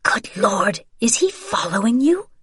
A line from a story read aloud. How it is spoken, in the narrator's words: Isabel muttered